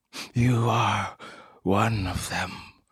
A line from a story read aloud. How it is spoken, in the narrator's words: returned, gasping